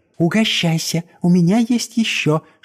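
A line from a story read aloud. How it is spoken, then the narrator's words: Whisper. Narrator (Russian): шепнула она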